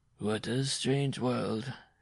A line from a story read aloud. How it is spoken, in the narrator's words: he muttered